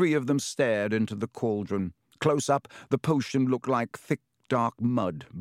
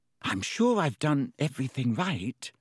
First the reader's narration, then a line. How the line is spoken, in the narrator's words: said Hermione, nervously